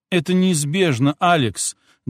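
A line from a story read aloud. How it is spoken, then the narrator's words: Girl's heavy sigh. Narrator (Russian): девушка тяжело вздохнула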